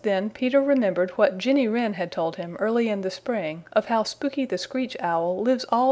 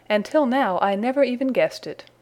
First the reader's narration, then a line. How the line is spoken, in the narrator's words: he exclaimed